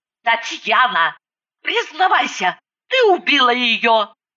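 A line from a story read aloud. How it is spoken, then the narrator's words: Hissed. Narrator (Russian): зашипела я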